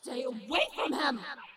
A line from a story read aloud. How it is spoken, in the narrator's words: Cleta roared